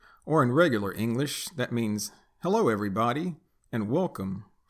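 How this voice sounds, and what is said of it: Usual voice. Nothing is said of it.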